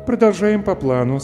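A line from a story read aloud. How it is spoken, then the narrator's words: Calm. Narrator (Russian): спокойно произнесла Дженни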